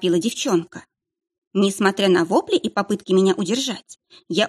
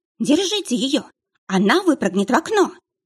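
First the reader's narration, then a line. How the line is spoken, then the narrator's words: Woman exclaiming. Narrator (Russian): Воскликнула женщина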